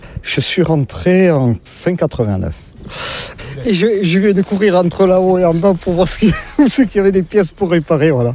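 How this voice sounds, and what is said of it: Southern French regional accent. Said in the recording (French): “comme vous l'entendez, je ne suis pas de la région... Avec mon accent, je ne suis pas du nord de la Loire... Je suis des Landes”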